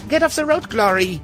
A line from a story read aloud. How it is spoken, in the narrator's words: shouted